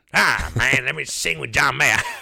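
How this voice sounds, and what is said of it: Imitates another person's voice. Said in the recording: “that was the worst Dave Chappelle ... Terrible. Terrible impression.”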